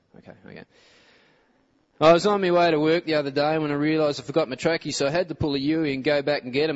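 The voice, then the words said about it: Exaggerated Australian accent. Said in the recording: “we put on the Aussie accent.”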